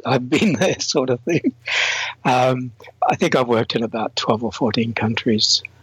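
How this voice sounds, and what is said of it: Slightly blurred Australian accent. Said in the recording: “I'm Australian. The accent is slightly blurred because I've traveled and lived and worked in a number of countries”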